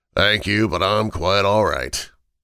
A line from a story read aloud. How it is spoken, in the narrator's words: the inspector said in his gravelly voice